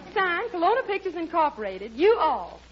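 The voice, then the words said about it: Put-on southern accent. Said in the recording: “a girl with a southern accent”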